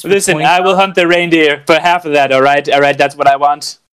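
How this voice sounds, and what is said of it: Imitates another person's voice. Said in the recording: “That was good. I've never heard that before. I don't think that was a good impression.”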